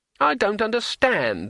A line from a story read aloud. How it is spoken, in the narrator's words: wailed Twoflower